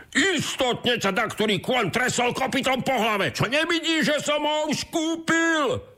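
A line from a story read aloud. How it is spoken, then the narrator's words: Shouted. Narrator (Slovak): zakričal druhý boháč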